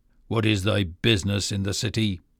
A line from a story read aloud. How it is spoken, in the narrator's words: the soldiers who stood on guard said roughly